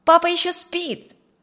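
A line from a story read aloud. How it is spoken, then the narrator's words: Shouted. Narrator (Russian): с порога крикнул Бен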